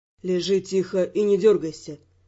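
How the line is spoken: Slightly tired voice. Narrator (Russian): чуть устало произнес Раймонд

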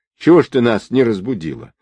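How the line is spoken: Angry yet guilty. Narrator (Russian): сердито, но одновременно виновата

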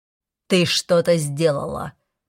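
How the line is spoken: Growled. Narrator (Russian): прорычал Оберон мне в лицо

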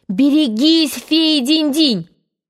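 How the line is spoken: Shouted warning. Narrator (Russian): мы бы крикнули ему

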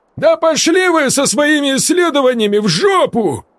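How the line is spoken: Yelling, desperate and guilty. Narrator (Russian): Заорал Игорь, и в его голосе слышались отчаяние и жгучая вина

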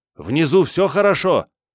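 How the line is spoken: Someone shouting. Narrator (Russian): Кто-то крикнул

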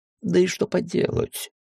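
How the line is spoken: Sad old dragon voice. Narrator (Russian): печально добавил старый дракон

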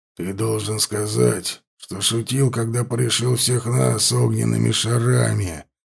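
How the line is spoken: Growling. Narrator (Russian): зарычал Лотер

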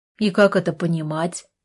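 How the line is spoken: Cold question. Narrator (Russian): холодно спросил Артур

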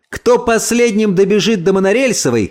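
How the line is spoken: Shouted. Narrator (Russian): крикнул

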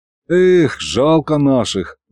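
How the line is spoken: Sighing. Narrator (Russian): вздохнул и я

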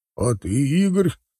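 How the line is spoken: Chuckling question. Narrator (Russian): хохотнул механик по выпуску Никита Олегович

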